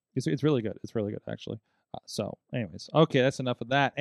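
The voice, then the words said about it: Strained, fading voice. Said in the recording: “I'm losing my voice from doing those attempted impressions”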